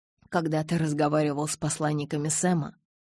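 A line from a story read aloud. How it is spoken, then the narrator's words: Muttered. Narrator (Russian): пробормотал Эдвард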